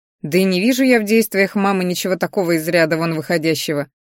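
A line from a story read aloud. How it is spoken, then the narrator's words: Chuckling. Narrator (Russian): хохотнул он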